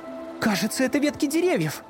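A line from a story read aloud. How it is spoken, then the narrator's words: Exclamation. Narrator (Russian): воскликнула Люси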